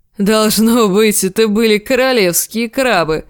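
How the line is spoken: Laughing. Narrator (Russian): засмеялся Большой Джон

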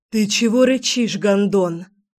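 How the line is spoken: Rude growling young woman. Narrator (Russian): Не менее вежливо зарычала девушка

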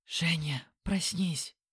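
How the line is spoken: Distant whisper. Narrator (Russian): донесся шепот Лены

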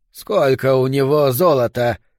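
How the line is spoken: Low guttural voice. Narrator (Russian): спросил Хайнрих низким утробным голосом

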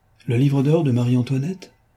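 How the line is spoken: Exclaimed. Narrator (French): s'écria-t-il

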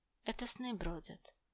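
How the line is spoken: Whisper. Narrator (Russian): шепнула Элис

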